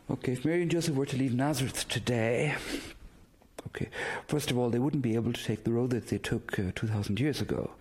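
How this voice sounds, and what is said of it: Irish accent. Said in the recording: “I'm originally from Ireland, as you can hear by my accent.”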